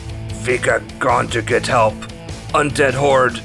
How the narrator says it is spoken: Narok groans and manages to eke out

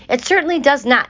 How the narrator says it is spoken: hollered Mrs

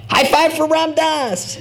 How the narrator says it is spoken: In moments of glee, members will often yell out

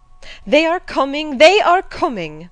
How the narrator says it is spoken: cried Hannah

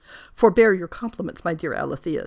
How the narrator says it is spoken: said she

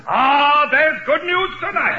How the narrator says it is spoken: jubilant ox jumped up on a box and yelled

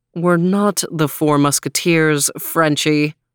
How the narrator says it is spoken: growled Overton

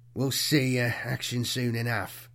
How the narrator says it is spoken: Mac muttered

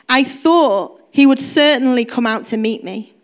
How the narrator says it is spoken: said

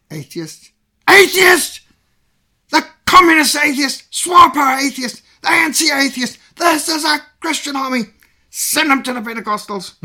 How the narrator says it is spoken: the sergeant major bellowed

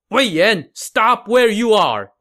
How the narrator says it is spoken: Wang Shuang shouted

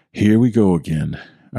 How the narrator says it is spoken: sighing to myself under my breath

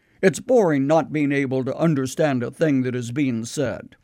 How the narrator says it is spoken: And they would grumble

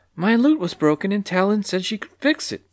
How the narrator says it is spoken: replied Clucky timidly

